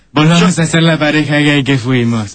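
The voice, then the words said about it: Campy gay voice, still masculine. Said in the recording (Spanish): “Decímelo más con voz de puto. Con voz de puto, pero con voz de hombre.”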